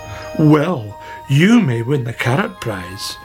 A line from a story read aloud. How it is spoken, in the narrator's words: she said